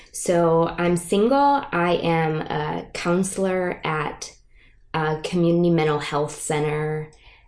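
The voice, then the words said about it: Michigan accent. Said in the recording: “my accent / speech impediment, I'm from Michigan ... People notice that there's a difference with my accent”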